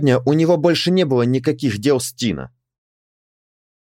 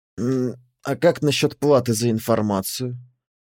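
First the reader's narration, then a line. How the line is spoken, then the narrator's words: Soft question. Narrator (Russian): мягко спросил Тина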